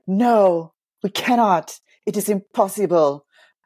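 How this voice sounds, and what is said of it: Put-on unidentified accent. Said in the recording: “I don't know what accent that was supposed to be”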